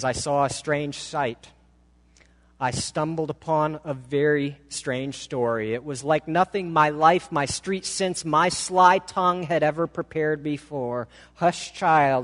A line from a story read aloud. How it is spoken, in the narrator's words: says